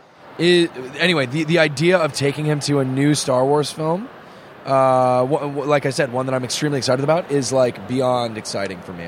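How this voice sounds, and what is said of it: Hoarse, nearly lost voice. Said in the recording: “I apologize for my voice. My voice is just gone... God, it's just gone.”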